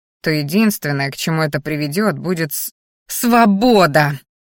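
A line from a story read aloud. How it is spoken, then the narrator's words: Growling interruption. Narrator (Russian): рыкнула Мелисса, перебивая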